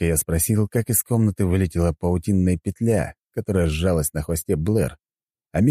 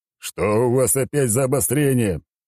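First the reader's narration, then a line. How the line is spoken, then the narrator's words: Groan. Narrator (Russian): Вновь простонал я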